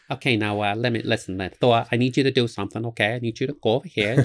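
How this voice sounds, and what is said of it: Bronx comedian-style character voice. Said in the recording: “Odin sounds like a Bronx comedian”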